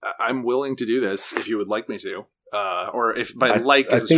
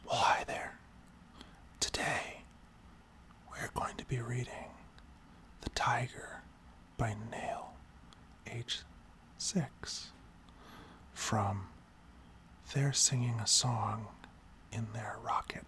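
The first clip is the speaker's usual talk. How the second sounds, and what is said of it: Soft ASMR-style voice. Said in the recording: “You reading this in your ASMR voice.”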